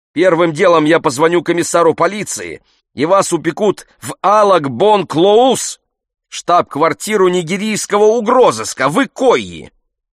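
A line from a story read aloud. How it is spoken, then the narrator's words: Shouting. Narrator (Russian): Она уже кричала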